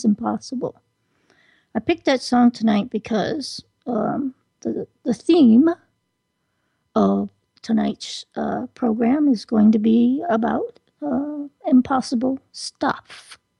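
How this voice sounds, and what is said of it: Raspy, strained throat. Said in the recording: “my throat's a little raspy. I've been speaking way too much today and singing way too much today.”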